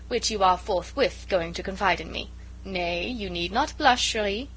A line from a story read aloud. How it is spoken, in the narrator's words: said Marguerite merrily